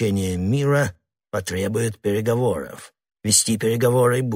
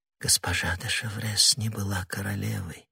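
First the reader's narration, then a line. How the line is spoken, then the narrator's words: Moved whisper. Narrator (Russian): прошептала Анна Австрийская, не в силах устоять перед выражением такого глубокого чувства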